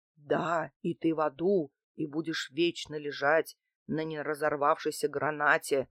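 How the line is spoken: Deep bass voice. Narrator (Russian): пробасила я, не удержавшись

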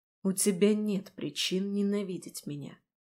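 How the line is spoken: Quiet. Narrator (Russian): тихо произнесла Марион

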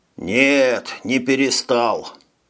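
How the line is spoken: Sighing. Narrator (Russian): вздохнул

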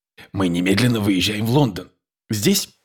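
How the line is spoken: Quiet. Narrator (Russian): тихо произнес

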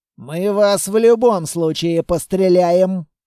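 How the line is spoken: Growling. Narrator (Russian): прорычал один из угловых

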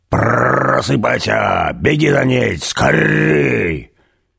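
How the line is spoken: Rough growling call. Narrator (Russian): грубым рычащим голосом звал

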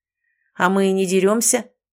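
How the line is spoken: Cold voice. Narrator (Russian): холодным голосом заметил Ричард

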